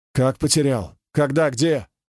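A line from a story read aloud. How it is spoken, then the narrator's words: Abrupt questioning. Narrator (Russian): отрывисто спрашивал Хайдаров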